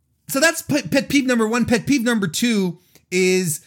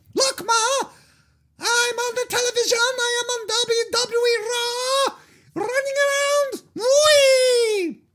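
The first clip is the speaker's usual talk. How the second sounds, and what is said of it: Kid voice with bad accent. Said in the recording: “the kids with the bad accents. Bad accent”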